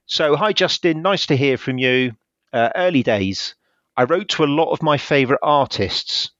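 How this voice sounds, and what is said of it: West Country English accent. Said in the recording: “he is a West Country lad, so we've got the same accent”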